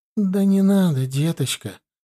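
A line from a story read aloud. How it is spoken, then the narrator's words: Sad, old woman. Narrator (Russian): грустно ответила старушка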